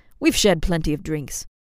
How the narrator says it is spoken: Flint scoffed

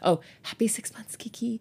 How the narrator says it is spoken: Minnie whispered

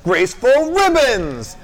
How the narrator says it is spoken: she shouts

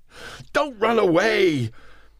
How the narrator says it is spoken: His throat choked up

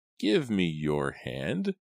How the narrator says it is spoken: croaked

